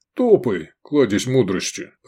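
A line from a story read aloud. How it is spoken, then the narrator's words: Grumbled. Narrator (Russian): проворчал Гефестай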